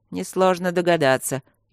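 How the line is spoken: Snide, mocking. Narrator (Russian): ехидно заметил змей

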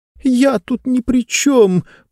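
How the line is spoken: Tearful complaining. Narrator (Russian): плачущим голосом жаловалась

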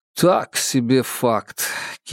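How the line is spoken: Sour tone. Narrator (Russian): кислым тоном прокомментировал услышанный Анзоров

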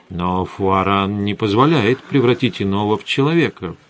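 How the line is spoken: Muttered. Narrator (Russian): пробормотал я

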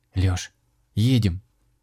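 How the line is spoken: Calm. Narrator (Russian): спокойно сказала Маруся

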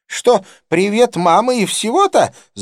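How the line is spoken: Screaming. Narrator (Russian): завопила она

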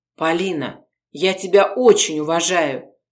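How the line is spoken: Quiet. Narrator (Russian): тихо проговорил Городецкий

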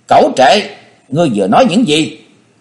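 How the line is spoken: Near shouting. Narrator (Vietnamese): Quyết Lan đồng tử nói như thét

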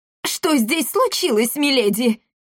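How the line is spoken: Squeaky exclamation. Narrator (Russian): писклявым голосом воскликнул он

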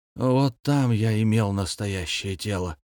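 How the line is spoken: Sad reply. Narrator (Russian): печально откликнулся навигатор

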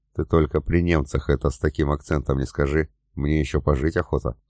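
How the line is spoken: Quiet speech. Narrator (Russian): негромко сказал

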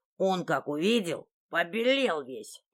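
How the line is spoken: Statue's bass, hoarse laugh. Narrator (Russian): пробасила живая статуя и заржала хрипло и скрипуче

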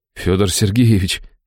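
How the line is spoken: Breathed out. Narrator (Russian): выдохнул

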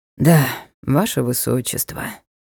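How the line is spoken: Tired. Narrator (Russian): устало подтвердил Ник

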